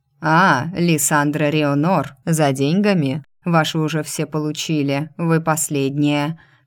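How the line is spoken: Stout woman grumbling. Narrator (Russian): проворчала дородная дама

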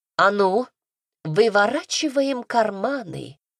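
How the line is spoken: Gentle request. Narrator (Russian): ласково попросила

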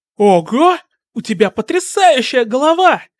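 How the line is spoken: Amazed shout. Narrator (Russian): крикнула Мина

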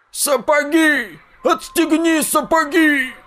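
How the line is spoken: Old man yelling. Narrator (Russian): заорал старик

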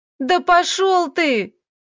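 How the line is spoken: Tearful shout. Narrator (Russian): закричала Диана со слезами

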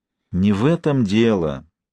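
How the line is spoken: Heavy sigh. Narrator (Russian): тяжело вздохнул Максим

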